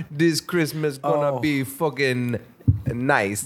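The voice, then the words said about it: Bad Santa accent, British-Jamaican mix. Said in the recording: “a real shitty Santa accent ... It's sort of British. ... it has like a little bit of Jamaican. ... it's changed a little bit over time.”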